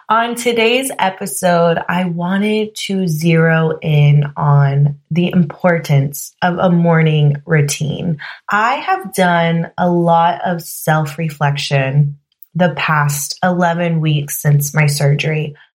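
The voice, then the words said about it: Slightly hoarse voice. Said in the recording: “I actually lost my voice ... completely lost my voice. And then I'm just now getting it back. You can actually still hear that. I'm a little hoarse”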